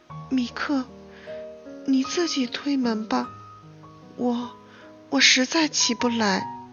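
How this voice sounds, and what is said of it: Very weak, feeble voice. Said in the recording (Chinese): “用非常微弱的声音说”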